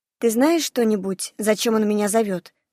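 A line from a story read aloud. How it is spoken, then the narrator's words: Plain. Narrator (Russian): спросила я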